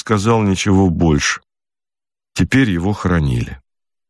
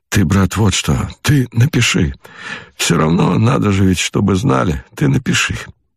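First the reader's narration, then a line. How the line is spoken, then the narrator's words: Weak voice. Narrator (Russian): сказал слабым голосом товарищу доктору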